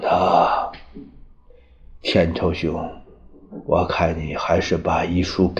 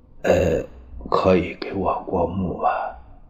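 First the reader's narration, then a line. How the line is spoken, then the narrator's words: Sighing after long silence. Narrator (Chinese): 于右任无言，半晌叹息着说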